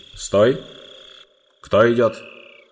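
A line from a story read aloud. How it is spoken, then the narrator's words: Badgers' menacing question. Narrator (Russian): два барсука со скальными зубами и грозно спросили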